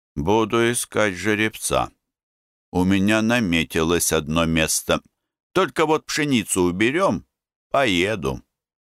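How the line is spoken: Through gritted teeth. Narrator (Russian): Серьезно одобрительно, говорил сквозь зубы

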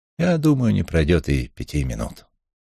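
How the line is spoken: Gentle reassurance. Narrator (Russian): ласково заверил Крумень

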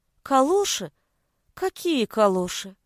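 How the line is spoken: Confused muttering. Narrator (Russian): растерянно бормотала Галя

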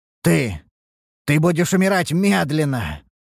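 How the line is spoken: Frustrated growl. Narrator (Russian): прорычал Ургнаш с досады

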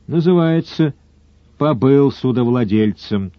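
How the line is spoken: Sad statement. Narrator (Russian): печально констатировал Сварог

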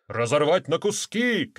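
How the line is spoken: Wolves shouting. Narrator (Russian): кричали волки

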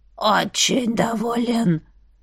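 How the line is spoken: Grating creaky old voice. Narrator (Russian): проскрипел старикан так, будто гвоздем по стеклу провел

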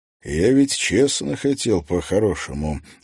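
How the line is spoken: Sighing. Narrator (Russian): вздохнул шериф

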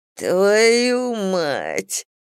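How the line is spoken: Whimpering. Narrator (Russian): заскулил Клей, закрывая половину лица рукой

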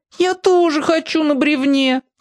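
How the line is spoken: Whining. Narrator (Russian): захныкал Клякса

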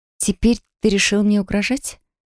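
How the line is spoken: Calm, quiet, hidden tension. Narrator (Russian): Голос звучал спокойно и тихо, хотя руки на самом деле подрагивали

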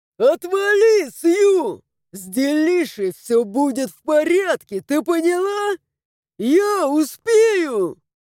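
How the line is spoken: Hysterical yelling. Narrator (Russian): Заорал в истерике Вирша

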